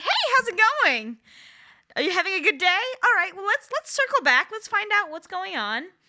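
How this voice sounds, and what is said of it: Upbeat customer service phone voice. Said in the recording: “I have a very impressive customer service voice ... all they hear is this customer service voice ... I don't talk like that normally”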